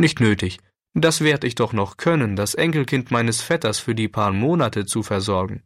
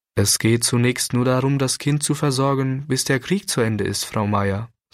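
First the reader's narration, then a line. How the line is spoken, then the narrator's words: Plain. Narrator (German): sagte der Pastor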